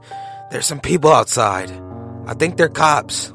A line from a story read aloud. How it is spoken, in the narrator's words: he said nervously